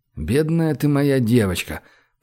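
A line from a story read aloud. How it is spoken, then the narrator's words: Mumbling. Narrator (Russian): пробормотал Гош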